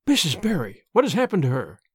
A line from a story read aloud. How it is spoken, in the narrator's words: she gasped, more white and shaken than the self-contained, sensible Marilla had been for many years